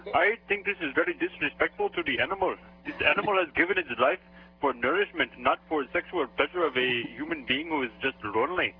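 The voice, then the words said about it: Deep voice with foreign accent. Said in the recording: “you must be calling from overseas. I can't help but draw attention to your accent ... it's very, very deep”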